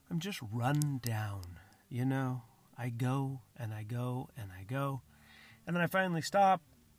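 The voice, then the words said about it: Tired voice with a slight cold. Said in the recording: “I'm exhausted ... I have a little bit of a cold. I mean, I know I have a little bit of a cold.”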